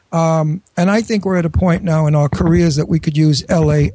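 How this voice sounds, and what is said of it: New York accent. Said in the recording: “I'm a New Yorker, as you can hear from my really? accent”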